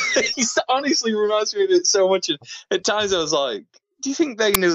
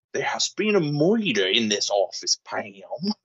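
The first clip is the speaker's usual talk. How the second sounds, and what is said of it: Benoit Blanc accent sounding like Michael Scott. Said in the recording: “Daniel Craig is doing his best Michael Scott murder mystery impression ... the accent is a bit off at times ... it sounds just like Michael sometimes”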